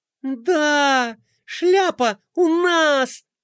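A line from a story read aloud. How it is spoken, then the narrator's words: Princess's joyful squeal. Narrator (Russian): Радостно завизжала принцесса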